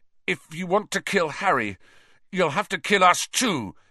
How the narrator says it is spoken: he said fiercely, though the effort of standing up had drained him

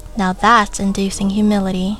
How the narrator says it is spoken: Copel said, laughing

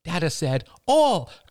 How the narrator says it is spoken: cried Ben

